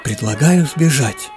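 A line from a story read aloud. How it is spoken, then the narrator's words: Whisper. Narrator (Russian): прошептала Марина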